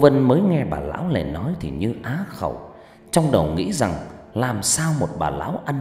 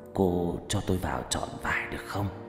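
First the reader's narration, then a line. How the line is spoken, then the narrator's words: Hoarse woman's voice. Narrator (Vietnamese): Bà ta nói bằng giọng khào khào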